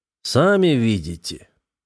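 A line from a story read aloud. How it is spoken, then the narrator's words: Rather spiteful. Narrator (Russian): довольно злобно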